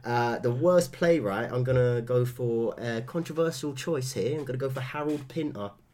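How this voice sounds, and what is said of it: Congested voice with limited range. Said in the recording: “I haven't got a very good range when I've got a cold.”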